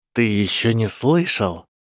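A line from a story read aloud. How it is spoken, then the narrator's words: Hissed. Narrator (Russian): прошипел декан его факультета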